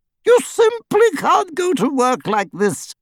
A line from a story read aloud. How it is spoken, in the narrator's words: cried Hermione